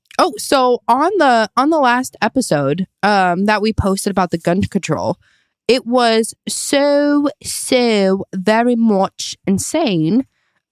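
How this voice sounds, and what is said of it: Suddenly speaking with an accent. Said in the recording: “Do I have an accent right now? Yes. Did I pick it up within the last 2 seconds? Yes.”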